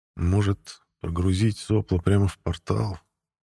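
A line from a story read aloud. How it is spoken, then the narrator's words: Barely audible mutter. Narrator (Russian): Неслышно пробормотал я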